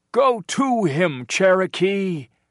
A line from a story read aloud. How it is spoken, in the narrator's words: the men shouted